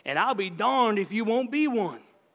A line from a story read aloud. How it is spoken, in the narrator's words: he hollered